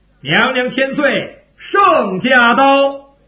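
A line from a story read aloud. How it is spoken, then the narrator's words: Calling out. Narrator (Chinese): 他喊了一声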